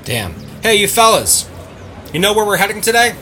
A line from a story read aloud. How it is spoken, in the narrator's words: Mills yelled